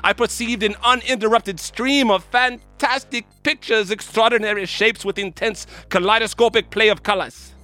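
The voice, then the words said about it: Put-on Swiss German accent. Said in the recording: “It's my first Swiss accent ever. I'm going to give you a secret with my German accent.”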